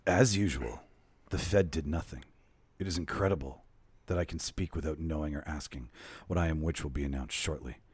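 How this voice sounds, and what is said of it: Put-on sexy voice. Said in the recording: “read it in my natural voice, or do you want me to go to my sexy voice? ... Go to your sexy voice. ... I'll go to my sexy voice.”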